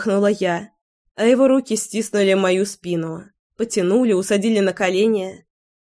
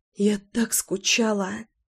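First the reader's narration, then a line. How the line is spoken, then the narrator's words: Breathless exhale. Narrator (Russian): выдохнула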